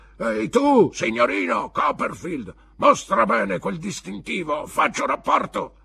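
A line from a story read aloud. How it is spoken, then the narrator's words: Distant roar. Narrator (Italian): ruggiva dalla porta del suo casotto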